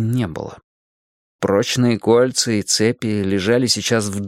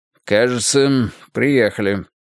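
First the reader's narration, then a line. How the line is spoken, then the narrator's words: Dry remark. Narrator (Russian): сухо заметил Грейтхаус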